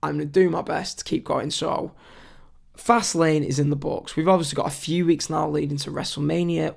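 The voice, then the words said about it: Strained, struggling worn-out voice. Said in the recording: “you can tell by this, my voice is struggling to make it to the end of the show”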